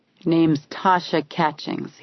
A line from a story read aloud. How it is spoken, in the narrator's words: muttered